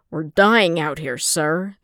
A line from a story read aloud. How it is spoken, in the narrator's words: the clone captain snapped back